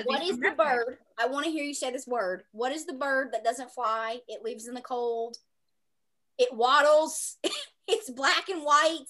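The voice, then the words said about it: Thick Southern accent. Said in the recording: “He has a thick Southern accent”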